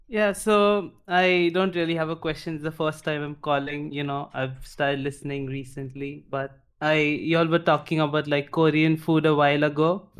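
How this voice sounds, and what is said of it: Indian accent. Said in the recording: “he has an Indian accent”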